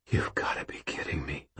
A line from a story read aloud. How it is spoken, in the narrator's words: I whispered